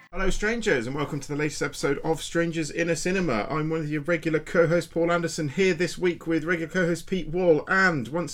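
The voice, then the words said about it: Out of breath speaker. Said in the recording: “I'm completely out of breath.”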